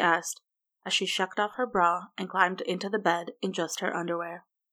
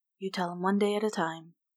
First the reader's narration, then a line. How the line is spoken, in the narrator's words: he said softly